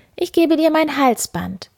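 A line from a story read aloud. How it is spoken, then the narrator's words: Miller's daughter calling. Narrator (German): rief die Müllers Tochter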